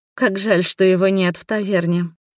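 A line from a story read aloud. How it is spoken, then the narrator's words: Sighed. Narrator (Russian): вздохнула я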